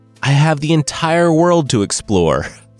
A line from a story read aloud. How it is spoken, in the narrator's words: Fergus laughed